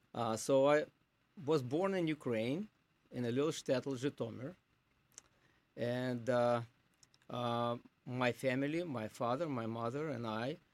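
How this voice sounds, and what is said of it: Non-American accent. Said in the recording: “Obviously, by my accent, I am not American by birth”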